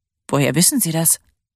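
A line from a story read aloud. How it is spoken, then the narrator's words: Tired, smiling. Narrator (German): lächelte müde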